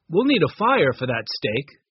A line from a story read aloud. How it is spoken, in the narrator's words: said Larry